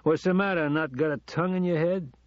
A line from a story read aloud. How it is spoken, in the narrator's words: asked, slurring his words